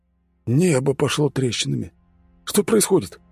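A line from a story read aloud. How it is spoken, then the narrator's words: Exclaimed. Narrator (Russian): воскликнул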